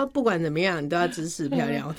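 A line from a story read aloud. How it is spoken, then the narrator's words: Teasing laughter. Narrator (Chinese): 他们会一直笑我说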